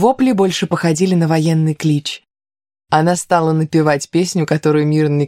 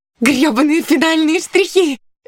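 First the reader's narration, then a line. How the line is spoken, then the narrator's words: Jubilant shout. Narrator (Russian): ликующе закричала Кристина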